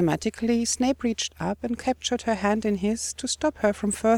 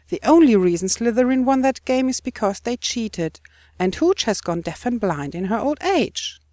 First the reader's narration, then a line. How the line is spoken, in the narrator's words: she exclaimed furiously